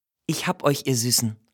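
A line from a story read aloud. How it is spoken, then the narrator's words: Soothing murmur. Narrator (German): murmelt sie den aufgeregt hoppelnden Häschen beruhigend zu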